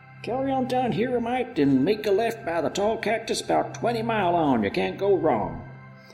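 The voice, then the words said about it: Put-on accent for old character. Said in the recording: “Bravo, your accents.”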